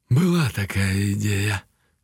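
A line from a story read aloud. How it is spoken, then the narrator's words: Sighed. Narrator (Russian): вздохнул помойный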